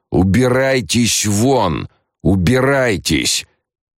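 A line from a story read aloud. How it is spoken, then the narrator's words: Thunderous shout. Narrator (Russian): Лето … закричал громовым голосом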